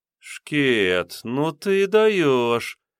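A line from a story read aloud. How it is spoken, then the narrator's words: Drawn-out. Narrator (Russian): протянула она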